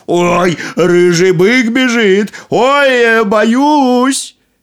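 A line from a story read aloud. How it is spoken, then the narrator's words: Mock-frightened shout. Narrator (Russian): Нарочно испугался и закричал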